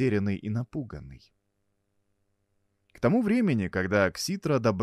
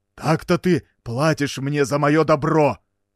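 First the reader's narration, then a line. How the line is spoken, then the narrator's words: Shout. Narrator (Russian): закричал Парнос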